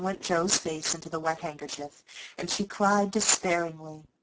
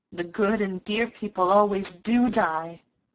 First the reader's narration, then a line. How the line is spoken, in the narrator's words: groaned Joe